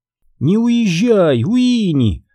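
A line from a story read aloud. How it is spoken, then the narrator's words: Pleading. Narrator (Russian): взмолилась Бэс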